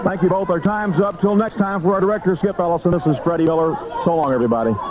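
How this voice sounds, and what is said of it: Southern accent. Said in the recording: “You can't help but notice that Southern accent coming through.”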